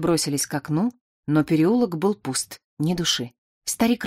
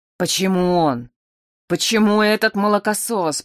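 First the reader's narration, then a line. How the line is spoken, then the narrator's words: Anguished moan. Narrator (Russian): простонал Калибан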